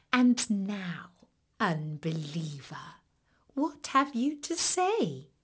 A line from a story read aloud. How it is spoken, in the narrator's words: the fox laughed gently